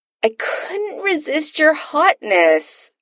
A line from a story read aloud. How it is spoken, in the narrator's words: Adam whines